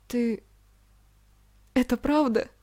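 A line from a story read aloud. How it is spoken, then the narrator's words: Tearful question. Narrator (Russian): сквозь слезы спросила Марина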